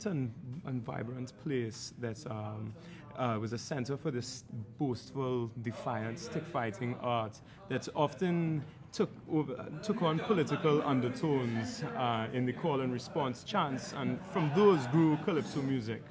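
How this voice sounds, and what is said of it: Trinidadian accent. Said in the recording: “you have a very Trinidadian accent”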